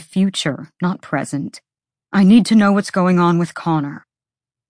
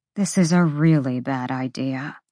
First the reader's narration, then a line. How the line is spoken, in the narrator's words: she muttered again